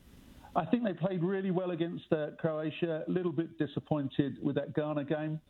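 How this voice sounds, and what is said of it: English accent. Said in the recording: “with my accent, I'm English”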